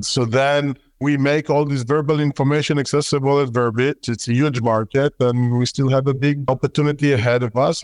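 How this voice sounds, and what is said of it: Strong Israeli accent in English. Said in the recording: “you can hear my terrible Israeli accent”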